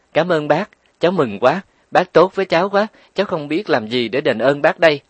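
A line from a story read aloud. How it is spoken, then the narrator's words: Joyful cry. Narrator (Vietnamese): Mẫn Nghi reo lên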